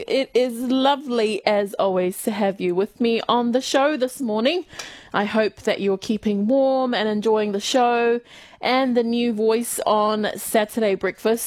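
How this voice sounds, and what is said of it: Thick New Zealand accent. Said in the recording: “my New Zealand accent ... my thick New Zealand accent”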